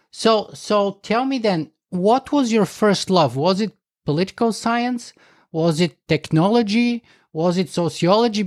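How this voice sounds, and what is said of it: Speaks with a noticeable foreign accent. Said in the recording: “just listening to your accent... I wanted to be a Soviet political specialist”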